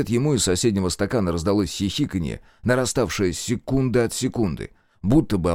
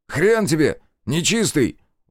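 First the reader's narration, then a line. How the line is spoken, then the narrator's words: Shouted out. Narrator (Russian): выкрикнул Демьян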